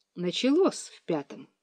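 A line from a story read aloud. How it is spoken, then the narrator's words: Father speaking quietly. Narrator (Russian): тихо сказал папа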